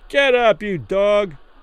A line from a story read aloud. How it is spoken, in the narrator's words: some man yelled through the ropes from behind